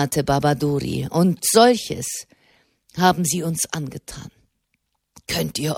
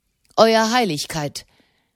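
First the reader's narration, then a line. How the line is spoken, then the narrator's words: Sharp. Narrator (German): sagte er scharf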